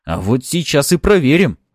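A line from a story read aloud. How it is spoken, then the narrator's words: Growled. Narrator (Russian): рыкнул он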